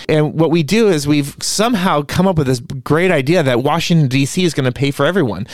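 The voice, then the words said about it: Sarcastic delivery. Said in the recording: “That was sarcasm,”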